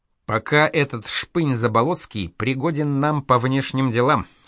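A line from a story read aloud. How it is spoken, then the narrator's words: Plain. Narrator (Russian): сказал Радогор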